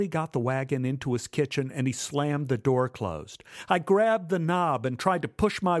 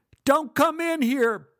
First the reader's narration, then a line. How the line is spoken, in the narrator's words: Buddy yelled